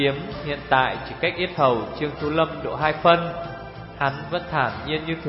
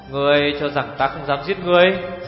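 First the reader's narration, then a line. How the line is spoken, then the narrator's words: Harsh questioning tone. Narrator (Vietnamese): gằn giọng hỏi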